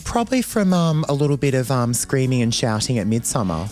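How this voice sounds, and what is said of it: Husky, raspy voice. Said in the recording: “you're sounding a little bit husky today. ... I am a little bit raspy, a little Lindsay Lohan-esque. ... It's sexy. ... I did actually nearly lose my voice”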